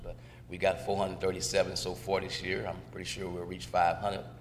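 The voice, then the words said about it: Hoarse, fading voice. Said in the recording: “You can tell I'm losing my voice,”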